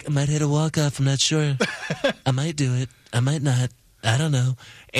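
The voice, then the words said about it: Donald Trump impression. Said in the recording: “don't do that impression ... people have always done presidential voices”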